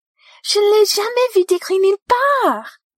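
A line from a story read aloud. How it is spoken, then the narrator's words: Delighted exclamation. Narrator (French): s'exclame Luna avec délice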